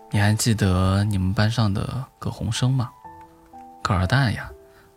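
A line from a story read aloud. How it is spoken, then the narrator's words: Sighing. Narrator (Chinese): 爸爸叹了口气，说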